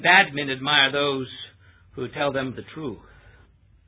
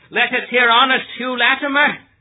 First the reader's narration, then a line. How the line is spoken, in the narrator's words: Hal cried